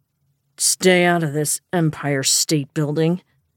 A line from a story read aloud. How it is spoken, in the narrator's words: Nick snarled